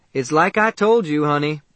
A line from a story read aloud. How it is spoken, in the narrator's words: she called out